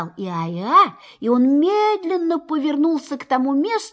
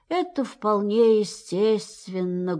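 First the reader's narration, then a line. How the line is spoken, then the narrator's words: Sad. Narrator (Russian): грустно сказал Иа-Иа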